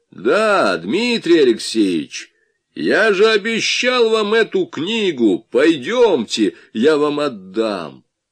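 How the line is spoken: Loud statement. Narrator (Russian): он вдруг громко произнес

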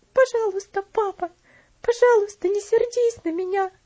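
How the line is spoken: Sobbing girl. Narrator (Russian): всхлипывала девочка

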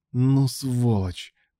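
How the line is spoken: Through clenched teeth. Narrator (Russian): процедил Илья сквозь зубы

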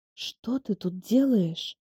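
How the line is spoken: Shocked sleepy hoarse whisper. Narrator (Russian): хриплым со сна голосом прошептала я, в шоке

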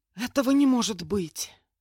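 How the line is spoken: Loud exhaled exclamation. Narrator (Russian): Громко выдохнула я

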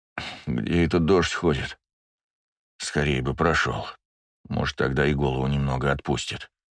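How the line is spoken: Grumble. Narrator (Russian): проворчал я

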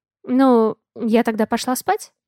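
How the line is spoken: Uncertain question. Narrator (Russian): Неуверенно спрашиваю я

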